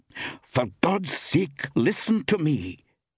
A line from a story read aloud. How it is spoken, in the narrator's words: she snapped impatiently